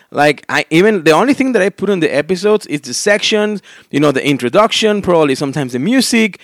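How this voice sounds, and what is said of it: Strong, distinctive accent. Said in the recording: “my, you know, very awful and unique accent.”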